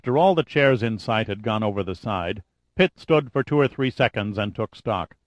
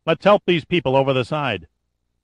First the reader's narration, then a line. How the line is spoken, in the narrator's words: He shouted to Giordino